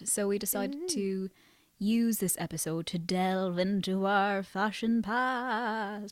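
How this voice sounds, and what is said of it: Spooky put-on voice. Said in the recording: “putting on a spooky voice.”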